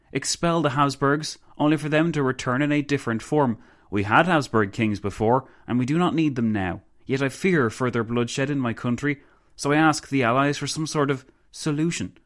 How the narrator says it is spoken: the Countess exclaimed

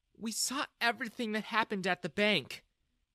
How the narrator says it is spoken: Jessica said sadly

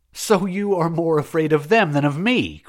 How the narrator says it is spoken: cried the Sufet

